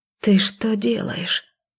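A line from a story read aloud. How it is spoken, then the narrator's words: Quiet female voice. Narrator (Russian): тихо произнесла она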